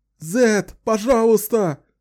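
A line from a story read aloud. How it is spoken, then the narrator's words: Wailing. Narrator (Russian): вопили несчастные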